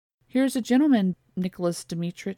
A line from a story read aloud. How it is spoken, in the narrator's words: she said